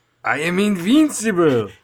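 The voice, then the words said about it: Alan Cumming's character, Russian accent. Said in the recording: “everybody's Teddy KGB version Russian accents ... Alan Cummings had the best Russian accent.”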